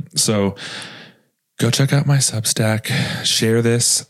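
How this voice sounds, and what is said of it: Sad-sounding voice. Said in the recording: “I sound so sad.”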